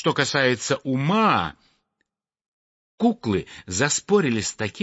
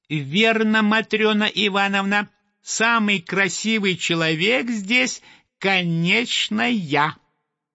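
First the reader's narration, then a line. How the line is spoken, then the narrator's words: Squeaky voice. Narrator (Russian): Петрушка и пропищал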